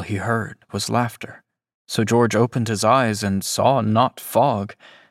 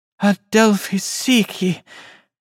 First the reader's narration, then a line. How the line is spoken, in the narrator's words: Her voice was light with joy